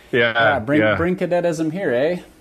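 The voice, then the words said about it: Put-on Canadian accent. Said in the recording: “great Canadian accent that was... That was beautiful. That was so close... you were on the money”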